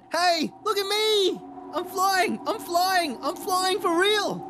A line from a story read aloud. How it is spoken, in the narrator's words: he shouted